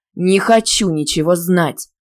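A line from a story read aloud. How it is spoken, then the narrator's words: Angry, cutting off. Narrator (Russian): зло оборвал меня преподаватель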